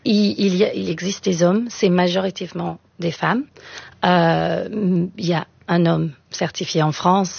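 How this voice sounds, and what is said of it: Slight British accent speaking French. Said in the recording (French): “mon petit accent. Je suis britannique à la base.”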